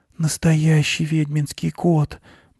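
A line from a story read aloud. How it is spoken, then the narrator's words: Whisper. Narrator (Russian): прошептала Аня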